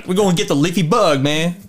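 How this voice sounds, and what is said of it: Weak Eddie Murphy impression. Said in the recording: “That's not a good Eddie Murphy impersonation”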